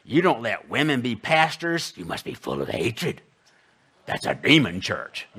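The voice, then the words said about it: Mocking voice of hostile critics. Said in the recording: “not in that kind of voice. That's my apostate, evil, wretched people who hate our church voice.”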